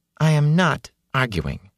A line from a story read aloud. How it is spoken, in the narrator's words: she said calmly